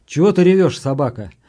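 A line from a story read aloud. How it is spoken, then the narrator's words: Angry. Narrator (Russian): сказал сердито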